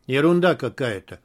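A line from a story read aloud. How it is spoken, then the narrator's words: Gloomy. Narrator (Russian): мрачно сказал Рымжанов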